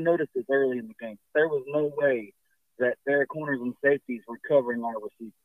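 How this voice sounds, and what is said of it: Hoarse, strained voice. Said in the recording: “lost your voice ... hopefully by Monday I'll have my voice back somewhat”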